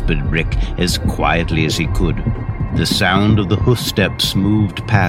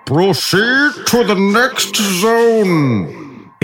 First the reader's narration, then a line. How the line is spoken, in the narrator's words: exclaimed the firehorn by the river